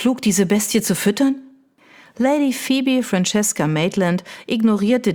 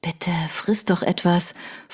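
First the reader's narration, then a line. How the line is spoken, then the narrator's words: Whispered. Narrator (German): flüsterte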